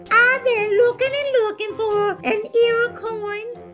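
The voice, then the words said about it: Small, sad, chirping mouse voice. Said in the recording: “in a wee little voice ... in a sad little chirping voice”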